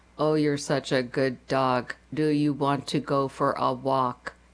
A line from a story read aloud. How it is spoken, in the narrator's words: said in a flat, boring voice